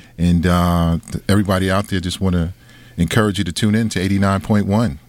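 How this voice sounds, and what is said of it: Great radio voice. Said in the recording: “you have a great radio voice”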